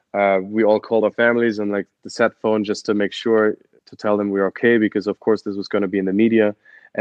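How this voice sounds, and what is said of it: German accent. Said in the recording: “I'm from Germany ... I'm sure people have noticed from my weird accent.”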